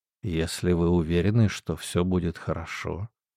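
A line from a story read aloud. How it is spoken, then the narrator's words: Quiet. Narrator (Russian): тихо сказал Хелпин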